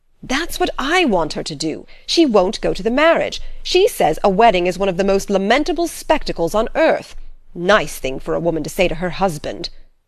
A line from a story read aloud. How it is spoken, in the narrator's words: exclaimed Mr